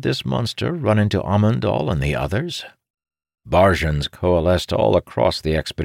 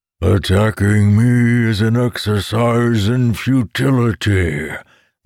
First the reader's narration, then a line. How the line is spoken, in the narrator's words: the monster bellowed